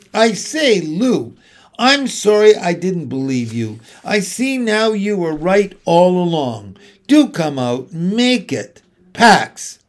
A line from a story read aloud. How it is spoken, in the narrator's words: he shouted again